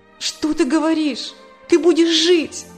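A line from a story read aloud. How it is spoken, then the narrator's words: Exclaimed. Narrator (Russian): воскликнула Саша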